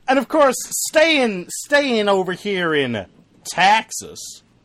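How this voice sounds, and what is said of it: Put-on Texas accent. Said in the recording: “It's Texas, but said with a Texas accent.”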